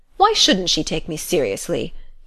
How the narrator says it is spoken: he demanded sharply

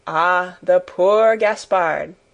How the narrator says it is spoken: with a sigh of great compassion

